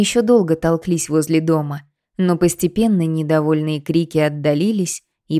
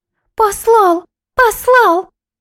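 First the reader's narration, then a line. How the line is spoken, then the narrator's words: Girls shrieking out of sync. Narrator (Russian): завизжали девчонки в разнобой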